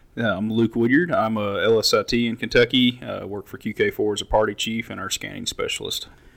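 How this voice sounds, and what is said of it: Deep voice. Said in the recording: “The big man with the deep voice.”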